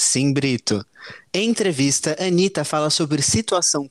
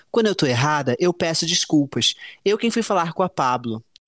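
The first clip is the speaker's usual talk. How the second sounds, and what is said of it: Quoting someone in a put-on accent. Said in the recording (Portuguese): “teve sotaque, teve até direito a sotaque.”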